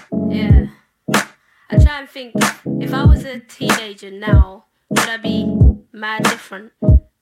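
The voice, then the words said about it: Speaks with a regional accent. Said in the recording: “The accent is so dope.”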